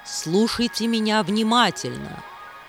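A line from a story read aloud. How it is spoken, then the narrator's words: Stern. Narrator (Russian): строго сказала Ягини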